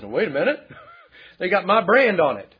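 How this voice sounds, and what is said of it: Slight Texan accent. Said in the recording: “guys with cattle speak with a slight Texan accent.”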